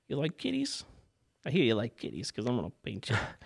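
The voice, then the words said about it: Put-on character accent. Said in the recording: “I think the accent's helping him.”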